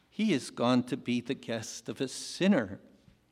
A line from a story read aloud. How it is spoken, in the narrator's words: all the people began to mutter